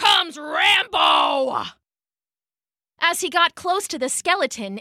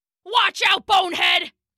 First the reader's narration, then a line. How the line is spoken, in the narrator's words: He barked